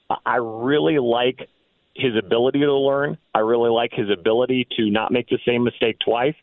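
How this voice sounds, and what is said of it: Strained, fading voice. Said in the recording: “As you could tell, I'm losing my voice. I've been talking on the radio too much this week.”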